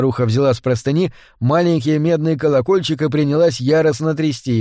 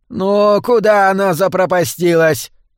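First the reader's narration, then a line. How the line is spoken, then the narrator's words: Shouting. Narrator (Russian): закричала она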